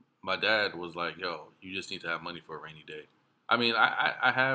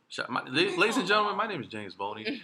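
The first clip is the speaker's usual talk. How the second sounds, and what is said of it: Announcer-style radio voice. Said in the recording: “That's a radio voice right there.”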